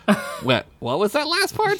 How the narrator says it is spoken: Squeak said with a smile

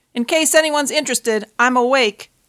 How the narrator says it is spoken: hollered across the yard

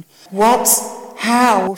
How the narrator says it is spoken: Sam asked, his voice quavering a little

